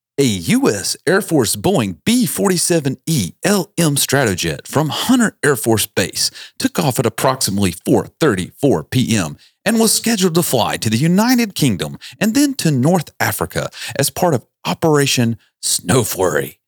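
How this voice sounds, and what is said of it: Mock newscaster reading voice. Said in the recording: “in my best newscaster voice”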